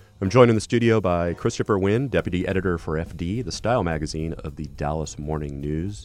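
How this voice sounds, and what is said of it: Congested voice from a cold. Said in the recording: “in case you didn't notice, I have a cold.”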